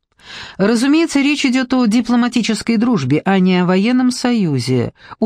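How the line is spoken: Cheerful, joking. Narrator (Russian): уточнил Арчибальд так весело, словно отпускал забавную шутку

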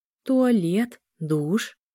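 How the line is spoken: Uncertain question. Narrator (Russian): неуверенно спросила Эля

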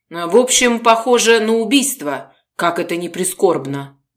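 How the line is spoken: Sighing. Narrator (Russian): вздохнул Мельников

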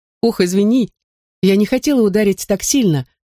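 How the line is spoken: Muffled laughing. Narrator (Russian): засмеялась Минни, одной ладонью прикрывая рот

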